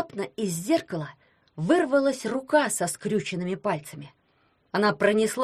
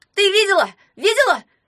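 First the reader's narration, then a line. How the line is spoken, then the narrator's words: Shouted. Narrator (Russian): крикнул он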